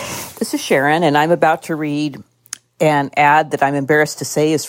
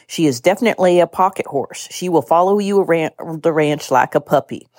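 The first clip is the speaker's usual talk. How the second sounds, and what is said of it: Put-on exaggerated Southern drawl. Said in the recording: “I'm going to read it in my accent known as Southern Drift, which has also been likened to a speech impediment ... an accent that's not my own ... an accent that probably doesn't belong to anybody”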